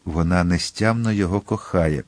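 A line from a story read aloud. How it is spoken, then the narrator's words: Whispered. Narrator (Ukrainian): прошепотів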